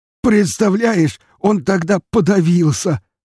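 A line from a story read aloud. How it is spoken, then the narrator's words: Hog's hearty laughter. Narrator (Russian): расхохотался хряк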